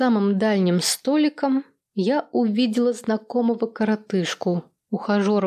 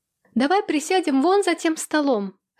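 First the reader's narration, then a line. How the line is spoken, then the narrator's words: Shouting. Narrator (Russian): прокричала я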